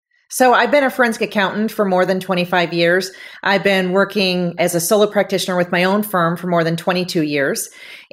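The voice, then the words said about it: Milwaukee accent. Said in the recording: “listeners are going to hear your Milwaukee accent”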